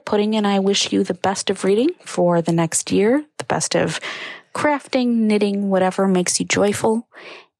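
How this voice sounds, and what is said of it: Soft, soothing ASMR-style voice. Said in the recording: “soothing ASMR voice ... She really did bring her soothing voice.”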